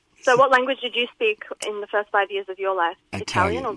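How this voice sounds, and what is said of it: Foreign accent. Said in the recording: “You do have an accent.”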